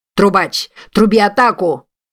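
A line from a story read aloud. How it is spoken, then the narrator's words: Shouting. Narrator (Russian): закричал он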